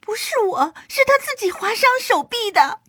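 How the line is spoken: Fearful scream. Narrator (Chinese): 他突然心生畏惧，尖叫着说

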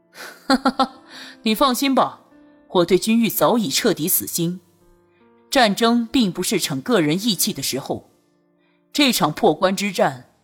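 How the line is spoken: Laughing. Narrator (Chinese): 朱瑜笑了起来

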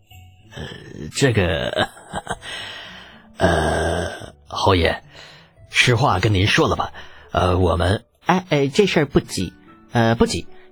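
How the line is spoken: Awkward hesitant laugh. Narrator (Chinese): 李斯摩顿了顿，尴尬一笑

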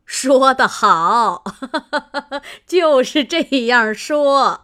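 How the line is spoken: Laughing old lady. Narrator (Chinese): 贾母笑道

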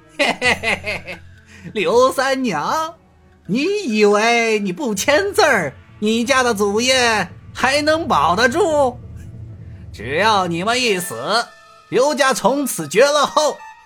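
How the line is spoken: Sinister laugh. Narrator (Chinese): 严师爷狞笑道

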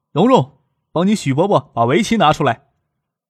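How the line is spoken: Calling out. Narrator (Chinese): 店主老陈朝院子里喊

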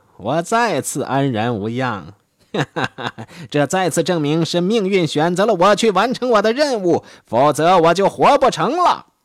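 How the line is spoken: Smiling. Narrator (Chinese): 他微笑着说

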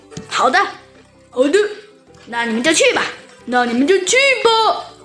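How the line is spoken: Excited loud shouting. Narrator (Chinese): 猴子警长和小鸡墩墩同时兴奋地一拍桌子，大声叫道

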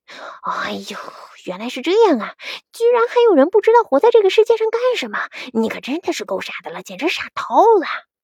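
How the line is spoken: Child muttering. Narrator (Chinese): 小顽童嘟囔了一句

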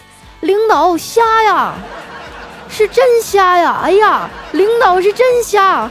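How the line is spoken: Loud shout. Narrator (Chinese): 大声的喊

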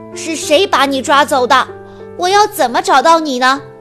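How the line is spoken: Loud question. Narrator (Chinese): 谢端大声问

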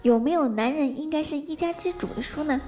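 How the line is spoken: Plain. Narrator (Chinese): 店主说话了

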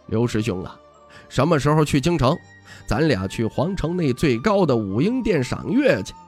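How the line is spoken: Smiling, friendly. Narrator (Chinese): 小师弟微笑道

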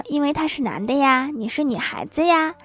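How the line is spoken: Mother's quiet voice. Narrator (Chinese): 妈妈对她小声说

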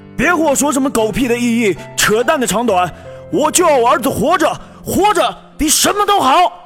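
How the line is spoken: Emotional shout. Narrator (Chinese): 老周红着眼喊道

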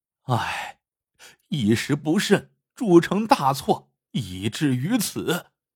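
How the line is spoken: Long sigh. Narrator (Chinese): 王员外不由长叹

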